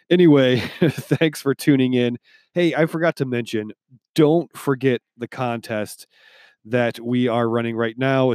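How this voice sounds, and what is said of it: Deep, congested voice. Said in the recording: “I'm a bit under the weather ... I gain my voice back ... the deep radio voice that a little bit of congestion gives me”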